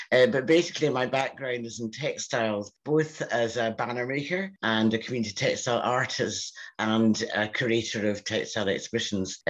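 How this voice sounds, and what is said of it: Scottish accent. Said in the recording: “As you can hear from my accent, I'm Scottish.”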